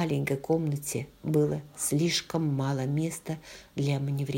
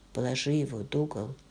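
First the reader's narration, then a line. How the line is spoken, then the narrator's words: Plain. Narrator (Russian): сказал он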